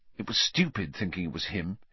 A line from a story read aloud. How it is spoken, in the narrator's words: muttered